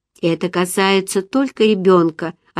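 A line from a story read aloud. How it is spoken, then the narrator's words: Plain. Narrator (Russian): ответила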